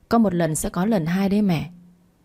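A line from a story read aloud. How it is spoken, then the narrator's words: Cold reply. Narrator (Vietnamese): Tôi lạnh lùng trả lời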